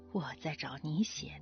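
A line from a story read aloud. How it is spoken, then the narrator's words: Father's low smiling mutter. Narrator (Chinese): 父亲笑着低声嘟囔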